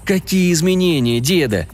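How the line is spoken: Dejected question. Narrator (Russian): упавшим голосом спросил

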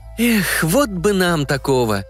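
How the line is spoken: Dreamy sigh. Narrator (Russian): мечтательно вздохнула Танюшка

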